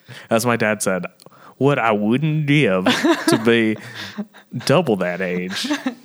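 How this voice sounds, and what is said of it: Imitates another person's voice. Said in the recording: “Was that a good Bernie impression?”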